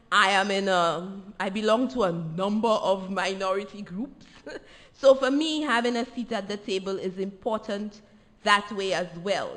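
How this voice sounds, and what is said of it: Non-American accent. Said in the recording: “you can tell from my accent that I am not an American”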